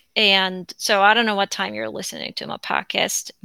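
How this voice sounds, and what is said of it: Sleepy voice. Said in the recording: “I will probably sound weird because I'm so sleepy”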